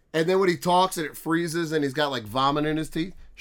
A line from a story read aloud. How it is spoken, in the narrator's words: she laughs, like she'll turn red in the face laughing at that